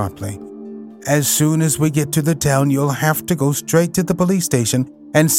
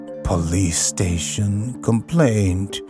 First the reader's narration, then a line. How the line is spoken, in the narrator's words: murmured Toad dreamily